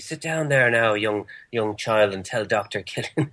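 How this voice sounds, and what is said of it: Creepy put-on Irish accent. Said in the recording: “That in the creepy Irish accent sounds kind of creepy”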